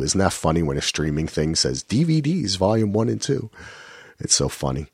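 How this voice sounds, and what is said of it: Strained, failing voice. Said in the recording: “I'm losing my voice ... even though I can hardly talk”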